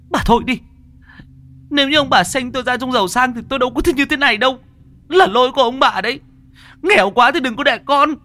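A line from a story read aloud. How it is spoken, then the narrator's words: Shrieking. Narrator (Vietnamese): con Lại rít lên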